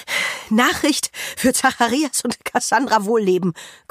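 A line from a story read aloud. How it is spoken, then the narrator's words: Panting, out of breath. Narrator (German): keucht sie und bleibt japsend stehen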